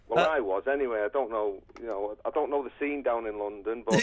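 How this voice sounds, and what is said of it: Strong Manchester accent. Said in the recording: “Is that your real accent, or are you putting that on? ... I'm from Manchester ... You sound so Manchester... That it sounds like not real Manchester ... You sound like Harry Enfield doing a crazy Manchester character”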